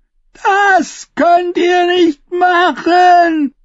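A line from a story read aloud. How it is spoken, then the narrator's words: Queen roaring angrily. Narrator (German): brüllte die Königin sie an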